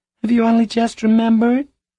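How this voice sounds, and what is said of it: Small, subdued voice. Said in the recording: “in a small voice”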